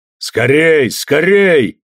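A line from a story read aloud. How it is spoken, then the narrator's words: Shouting. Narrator (Russian): кричал Орлан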